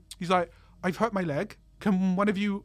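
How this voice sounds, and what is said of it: Put-on Welsh accent. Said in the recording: “I'm not going to do a Welsh accent the whole time. It's going to be awful.”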